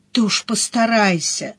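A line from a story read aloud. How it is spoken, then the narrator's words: Sigh. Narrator (Russian): вздохнула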